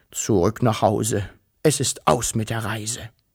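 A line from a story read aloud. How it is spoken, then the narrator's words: Dull, muffled voice. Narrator (German): sagte er mit dumpfer Stimme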